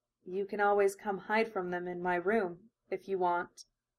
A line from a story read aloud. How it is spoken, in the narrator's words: Shyly, unable to help blushing a little, Hinata murmured